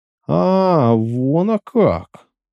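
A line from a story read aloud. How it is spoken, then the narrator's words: Wondering drawl. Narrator (Russian): протянула хозяйка, дивясь на него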